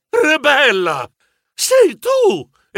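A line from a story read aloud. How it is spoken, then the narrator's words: Exclaimed. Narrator (Italian): esclamai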